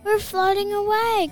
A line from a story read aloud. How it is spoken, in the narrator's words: cried Rose